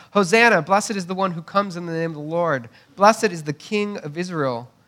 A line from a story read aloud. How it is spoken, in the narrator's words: shouting